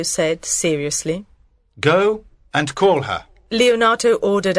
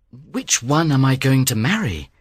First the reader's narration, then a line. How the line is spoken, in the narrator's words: Claudio asked nervously